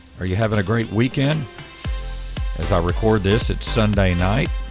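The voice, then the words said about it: Slightly frazzled, worn voice. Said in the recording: “My voice is a little bit frazzled from having church today”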